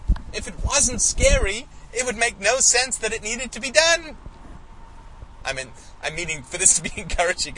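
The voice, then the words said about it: Loud, raised voice. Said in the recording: “I'm sorry to be raising my voice.”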